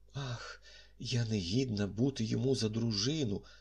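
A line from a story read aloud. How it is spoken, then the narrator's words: Trembling voice. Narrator (Ukrainian): сказала тремтливим голосом прекрасна Сент-Ів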